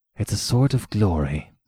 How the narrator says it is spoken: he muttered after a second

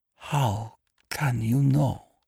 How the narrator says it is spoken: she whispered

